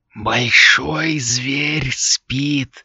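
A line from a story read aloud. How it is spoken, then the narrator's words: Clipped whisper. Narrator (Russian): отрывисто прошептала она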